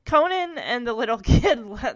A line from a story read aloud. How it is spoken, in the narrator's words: Dash laugh